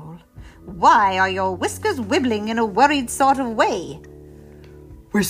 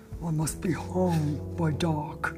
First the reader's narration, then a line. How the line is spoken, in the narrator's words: muttered the Snorklum